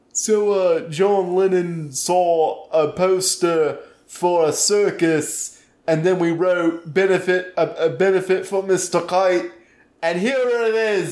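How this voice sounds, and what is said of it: Put-on British voice. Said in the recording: “I'm using my dumb voice. ... Which is your British voice.”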